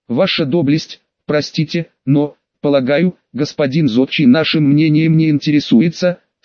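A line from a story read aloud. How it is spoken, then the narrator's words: Sly low booming. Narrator (Russian): с хитрой улыбкой прогудел Вепрь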